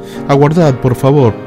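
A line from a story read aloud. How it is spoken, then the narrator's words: Knight pleading. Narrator (Spanish): suplicó el caballero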